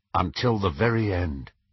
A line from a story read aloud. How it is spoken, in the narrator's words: said James